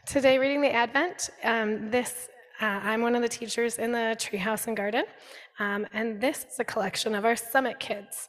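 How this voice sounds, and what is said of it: Voice still recovering from illness. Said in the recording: “Sorry about my voice. This is what getting better sounds like to me”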